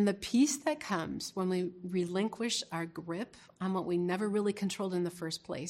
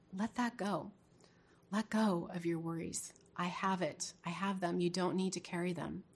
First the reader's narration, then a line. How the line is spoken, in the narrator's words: The Holy Spirit whispered to my heart